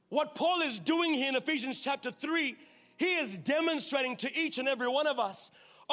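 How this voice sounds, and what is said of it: Speaks with a noticeable accent. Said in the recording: “Are you understanding through the accent?”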